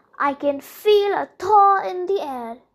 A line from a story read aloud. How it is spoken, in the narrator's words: grumbled